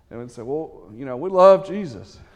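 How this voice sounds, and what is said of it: Put-on Texas accent. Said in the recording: “we're in Texas, so I was born in Texas, so I can claim this a little bit. I'm going to use an accent.”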